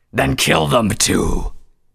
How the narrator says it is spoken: Gnarlrock snarled

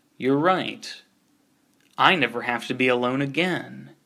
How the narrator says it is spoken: smiled

